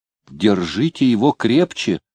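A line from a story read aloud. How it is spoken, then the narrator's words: Pleading. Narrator (Russian): взмолился Коробейник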